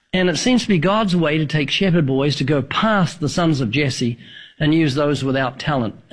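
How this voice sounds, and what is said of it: New Zealand accent. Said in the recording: “the accent. I was thinking maybe Northern Alabama, but what? New Zealand.”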